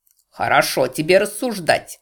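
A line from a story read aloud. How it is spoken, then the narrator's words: Angry snap. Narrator (Russian): огрызнулся злобно Гарольд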